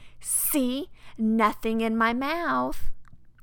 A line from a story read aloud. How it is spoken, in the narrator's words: opened their mouth wide and said